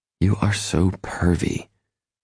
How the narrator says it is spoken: she exclaims under her breath

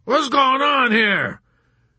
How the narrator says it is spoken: A nude, ridiculous man bellowed

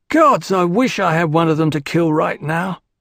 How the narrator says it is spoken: Duncan moaned

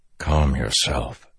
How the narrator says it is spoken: Dalinar whispered

